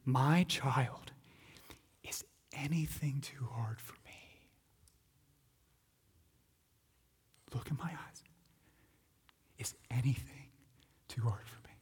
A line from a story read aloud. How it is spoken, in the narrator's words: the Lord saying to you and gently challenging you